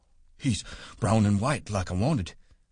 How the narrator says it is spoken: Lenny said breathlessly

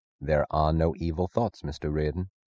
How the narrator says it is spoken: Francisco said softly

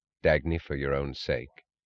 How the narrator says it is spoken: He said quietly

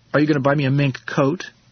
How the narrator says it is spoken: she asked me between sobs

